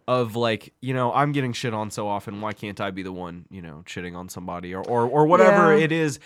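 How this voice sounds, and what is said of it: Usual voice. Nothing is said of it.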